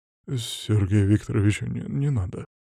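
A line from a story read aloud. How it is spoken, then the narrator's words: Mumbling. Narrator (Russian): забормотал он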